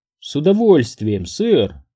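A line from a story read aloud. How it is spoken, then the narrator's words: Embarrassed girlish laugh. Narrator (Russian): Лизбет рассмеялась с видом смущенной школьницы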